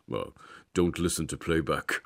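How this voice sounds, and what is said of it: Imitates another person's voice, poorly. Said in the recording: “that is a terrible impression.”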